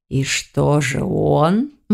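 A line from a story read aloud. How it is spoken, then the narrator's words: Purring voice. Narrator (Russian): мурлыкающим голосом спрашивал Учандр Урчарович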